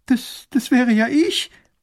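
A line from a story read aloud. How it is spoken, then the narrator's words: Girl sobbing. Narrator (German): schluchzt das Mädchen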